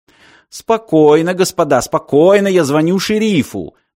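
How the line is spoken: Loud shouting. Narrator (Russian): закричал бармен, будто посетители салуна уже впали в панику

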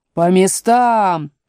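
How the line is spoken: Thundering queen. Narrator (Russian): прогремела королева

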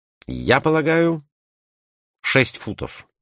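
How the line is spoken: Plain. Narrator (Russian): ответил Барбикен

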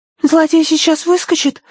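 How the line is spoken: Frightened question. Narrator (Russian): испуганно спросила Агнес

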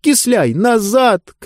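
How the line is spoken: Shouting. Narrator (Russian): крикнула Диба

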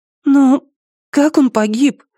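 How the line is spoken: Thin little voice. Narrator (Russian): тоненьким голоском спросила Амена

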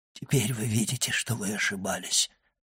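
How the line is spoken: Whispered. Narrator (Russian): прошептал Вильфор

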